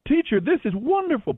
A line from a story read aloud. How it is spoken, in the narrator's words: Peter exclaimed